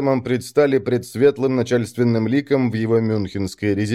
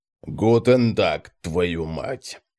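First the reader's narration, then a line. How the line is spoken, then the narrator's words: Grumbling. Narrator (Russian): ворчал он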